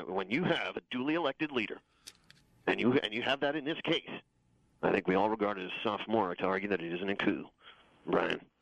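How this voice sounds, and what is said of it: Imitates another person's voice. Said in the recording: “I do a very good Brit Hume impersonation ... That was James Rosen as Brit Hume”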